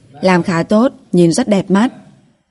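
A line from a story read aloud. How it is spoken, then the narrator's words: Laughing. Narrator (Vietnamese): Bà Giang bật cười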